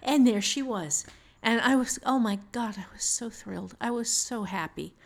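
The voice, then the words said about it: Emotional, holding back tears. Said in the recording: “I'm getting a little teary-eyed here. I'm trying to kind of fight this back”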